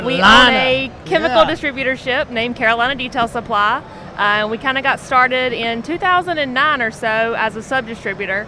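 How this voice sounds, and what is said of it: North Carolina Southern accent. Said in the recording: “is that accent not amazing? ... North Carolina”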